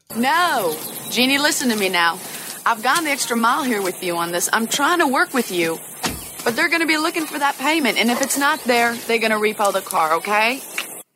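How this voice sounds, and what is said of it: Charlize Theron's Southern accent. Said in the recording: “Here's Charlize Theron with her accent.”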